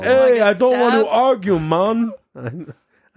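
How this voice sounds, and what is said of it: Poor put-on Jamaican accent. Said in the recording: “That's my Jamaican accent. It's not good. ... Awful. It's not good at all. ... very odd. ... Terrible.”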